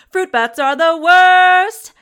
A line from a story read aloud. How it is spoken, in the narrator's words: He yells at the top of his lungs